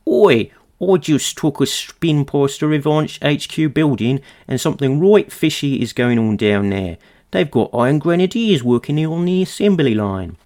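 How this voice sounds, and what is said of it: Cartoonish Cockney Australian accent. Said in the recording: “my cartooning accent of my generic kind of slightly Cockney Australian ... It's very good. It's very good.”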